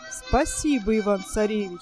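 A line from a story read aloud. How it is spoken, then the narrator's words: Plain. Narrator (Russian): сказал Кощей Бессмертный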